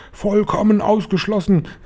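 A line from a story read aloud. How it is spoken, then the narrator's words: Calling out. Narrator (German): rief Mr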